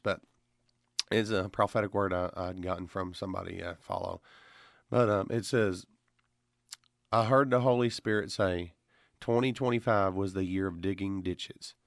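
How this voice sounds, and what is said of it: Slightly hoarse voice. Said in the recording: “I know my voice is a little hoarse”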